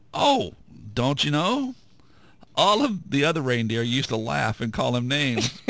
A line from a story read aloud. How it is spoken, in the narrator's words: The contestant laughed at him strangely and said